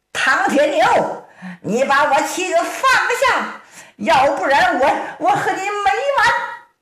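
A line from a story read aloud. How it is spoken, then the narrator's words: Loud shout. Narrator (Chinese): 乔玲一声高喊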